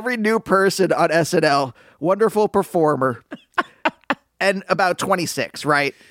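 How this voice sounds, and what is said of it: Usual voice. Nothing is said of it.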